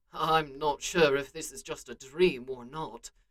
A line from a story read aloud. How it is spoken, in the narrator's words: he muttered